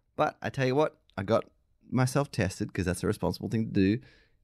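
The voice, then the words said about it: Croaky, sick-sounding voice. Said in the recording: “I am under the weather... You can hear me all croaked out on that... you can hear in my voice, I am not feeling good”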